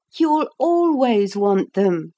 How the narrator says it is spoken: she said, laughing at him gently

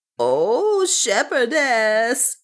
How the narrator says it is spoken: she wailed

